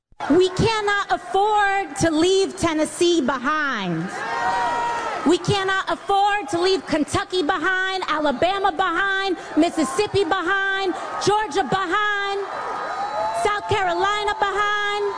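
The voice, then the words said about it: Slight put-on Southern twang. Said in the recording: “AOC's new accent when she's in the South ... Sort of a little Southern twang now.”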